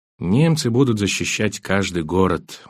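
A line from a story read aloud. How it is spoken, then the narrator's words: Tired speech. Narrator (Russian): устало говорила она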